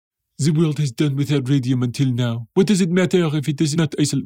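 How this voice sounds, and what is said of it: French accent. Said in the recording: “why is this accent French?”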